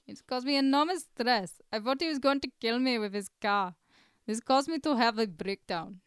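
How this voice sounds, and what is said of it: Put-on Indian accent. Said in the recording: “racist accent ... that racist accent ... Indian”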